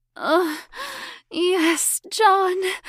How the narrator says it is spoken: Elizabeth cried

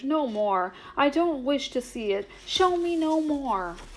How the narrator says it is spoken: cried Scrooge

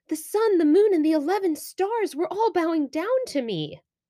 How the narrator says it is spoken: Yosef eagerly explained

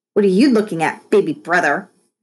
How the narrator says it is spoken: snapped

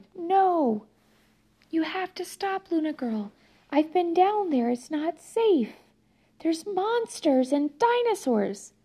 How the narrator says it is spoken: Amaya shouted

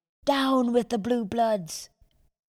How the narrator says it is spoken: a voice from outer space shouted

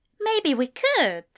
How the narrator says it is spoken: Ezra said so cheerfully

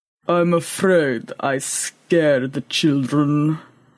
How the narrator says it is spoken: rumbled Boaz

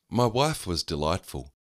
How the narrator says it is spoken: her carefree laugh pealing through the fancy restaurant

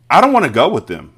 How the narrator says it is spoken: Matilda shouted suddenly

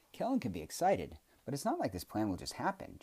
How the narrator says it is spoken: Jack exclaimed

